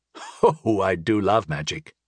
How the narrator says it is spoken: chuckled the bard

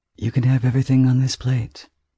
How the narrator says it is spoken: he says, calmly and conversationally

